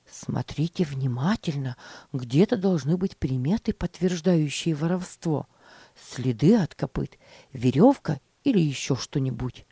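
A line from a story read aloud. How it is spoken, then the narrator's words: Whispered to boys. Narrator (Russian): шептал мальчикам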